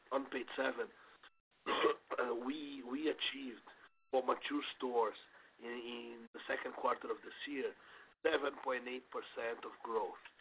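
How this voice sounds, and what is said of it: Hoarse voice from a cold. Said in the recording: “I apologize for my voice, I'm recovering from a cold.”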